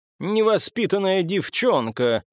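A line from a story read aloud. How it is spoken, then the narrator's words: Reproachful, muffled laughter. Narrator (Russian): укорил ее за что-то Маркус, глухо смеясь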